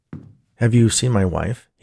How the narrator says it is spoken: he asked Chef

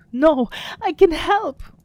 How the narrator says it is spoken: the apprentice cried

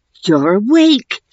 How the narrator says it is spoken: Theo exclaimed, hardly sure whether to be excited or terrified

